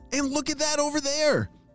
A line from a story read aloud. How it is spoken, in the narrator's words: shouted Sam